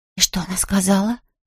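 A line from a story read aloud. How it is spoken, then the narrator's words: Whisper. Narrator (Russian): прошептала она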